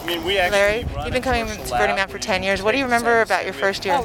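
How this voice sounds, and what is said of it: Muffled voice. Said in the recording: “I was wearing a face mask through most of it, so sorry if I sound a bit muffled.”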